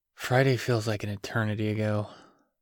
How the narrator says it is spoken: he sighed

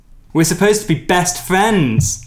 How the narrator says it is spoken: I exclaim

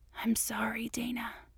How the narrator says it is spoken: he whispered in her ear

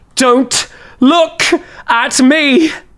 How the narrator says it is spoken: scream

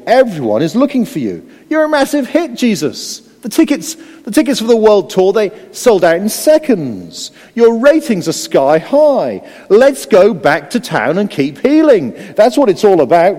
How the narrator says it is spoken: they all exclaimed

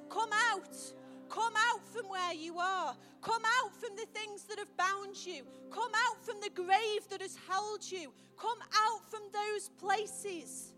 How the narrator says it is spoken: a shout in the air that calls your name and says

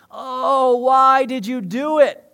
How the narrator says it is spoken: They groaned

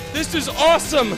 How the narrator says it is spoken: I shouted

